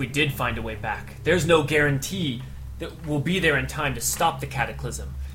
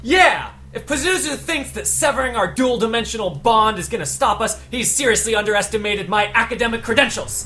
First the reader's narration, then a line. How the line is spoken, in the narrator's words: Frida yells up and says